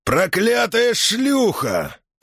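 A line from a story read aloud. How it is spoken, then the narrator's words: Roar. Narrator (Russian): проревел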